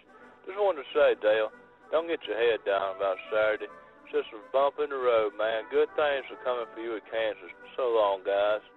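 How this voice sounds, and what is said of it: Imitates another person's voice, Virginia-Louisiana accent. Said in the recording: “that's not a bad Warburton, but it kind of had some Archie Manning in there, too... It was like a Virginia-Louisiana-like mixture in there... Ward Burton impersonation”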